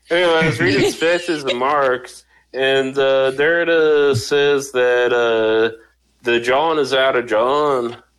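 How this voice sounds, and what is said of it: Imitates another person's voice. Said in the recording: “is this Tom Petty? ... I retreat to Tom Petty when I'm trying to cover the fact that I don't actually know how to do a Philly accent ... I think that was a Tom Petty doing a Bob Dylan.”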